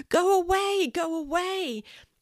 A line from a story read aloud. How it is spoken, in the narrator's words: She screamed